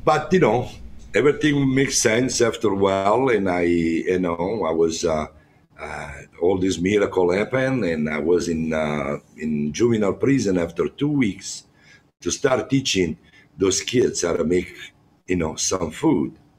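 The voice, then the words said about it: Strong non-native English accent. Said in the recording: “my accent is very strong my english is not that good”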